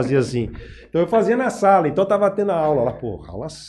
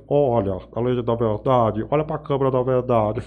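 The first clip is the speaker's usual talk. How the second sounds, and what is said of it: Imitates another person's voice. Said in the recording (Portuguese): “uma imitação que eu fazia, que era do Clodovil”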